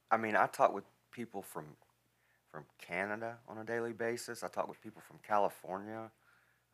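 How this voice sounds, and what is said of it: Southern Alabama drawl. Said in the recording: “I've got a Southern draw, an Alabama draw that I can't shake”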